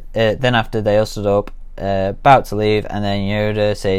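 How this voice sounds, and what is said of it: Usual voice. Nothing is said of it.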